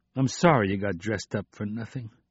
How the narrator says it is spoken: he said miserably

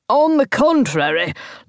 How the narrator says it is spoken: Lord Salisbury said angrily

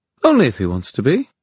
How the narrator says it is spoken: said Neen, cheerfully

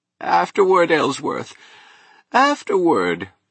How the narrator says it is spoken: he moaned

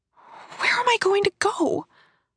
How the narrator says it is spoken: I asked feebly

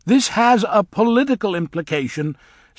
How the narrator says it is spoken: said Elphaba loudly

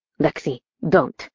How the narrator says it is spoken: he growled in a cold and detached tone

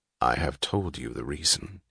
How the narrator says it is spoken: he answered gravely

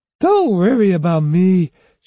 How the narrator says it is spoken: she slurred

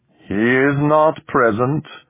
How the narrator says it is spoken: the alien rumbled

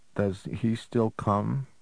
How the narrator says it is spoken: Jennifer asked shakily

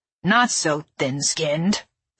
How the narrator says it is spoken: Zeg Roddix said gruffly

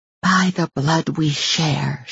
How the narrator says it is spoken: she whispered

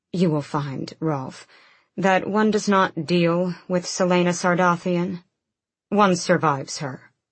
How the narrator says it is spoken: Dorian said smoothly

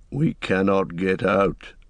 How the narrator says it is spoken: muttered Gimli

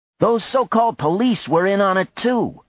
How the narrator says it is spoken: one of them said loudly

